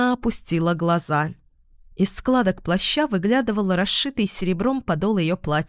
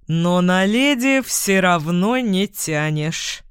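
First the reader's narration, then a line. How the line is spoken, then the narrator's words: Mocking guard. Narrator (Russian): продолжил караульный издевательским тоном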